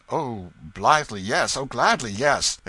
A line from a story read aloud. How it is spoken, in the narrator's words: exclaimed Tom excitedly